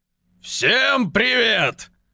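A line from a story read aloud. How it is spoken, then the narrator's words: Rumbling disguised voice. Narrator (Russian): пророкотал Гога не своим голосом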